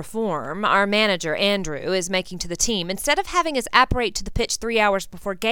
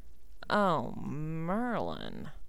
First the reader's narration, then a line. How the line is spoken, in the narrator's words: I groaned